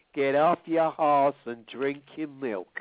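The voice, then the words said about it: John Wayne impression. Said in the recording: “As John Wayne would say”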